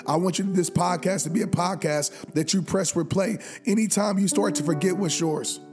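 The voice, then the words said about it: Raspy, strained voice. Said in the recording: “losing my voice right now. My voice is a little raspy right now”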